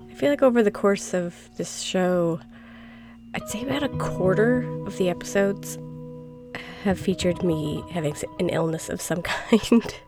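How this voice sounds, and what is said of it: Congested voice from a cold. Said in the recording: “I have a cold. ... I have snots running down my nose.”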